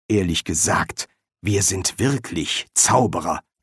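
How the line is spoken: Hiss. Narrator (German): zischte

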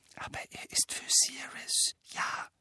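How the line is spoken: Explaining. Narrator (German): setzte er flüsternd hinzu

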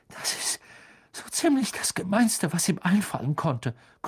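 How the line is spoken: Gasping. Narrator (German): keuchte Ron

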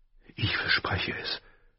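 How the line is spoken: Whispered. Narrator (German): flüsterte er

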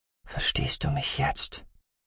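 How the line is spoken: Soft question. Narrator (German): fragte sie leise

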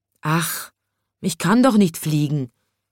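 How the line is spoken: Little chimney sweep sighing. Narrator (German): seufzte der kleine Schornsteinfeger

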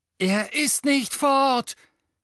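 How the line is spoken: Scream. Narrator (German): schrie Harry

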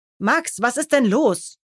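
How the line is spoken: Stern question. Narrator (German): fragt streng

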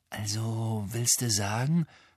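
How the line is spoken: Whisper. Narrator (German): flüsterte Ron

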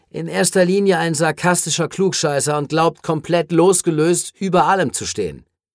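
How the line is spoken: Weary interjection. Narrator (German): warf Cameron Rios mit matter Stimme ein

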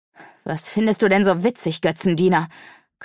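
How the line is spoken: Growling. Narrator (German): knurrte Haru

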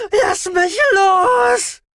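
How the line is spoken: Shriek. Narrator (German): kreischte die Zaliterin

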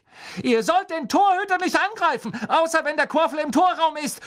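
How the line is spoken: Shouting. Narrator (German): schrie sie Bowl und Derrick an

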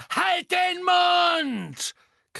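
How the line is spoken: Shrieking. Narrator (German): kreischte Bellatrix

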